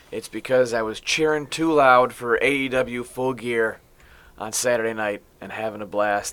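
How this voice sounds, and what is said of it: Raspy, strained voice. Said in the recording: “You can hear my voice. It's a little raspy, but it's not because I have a cold.”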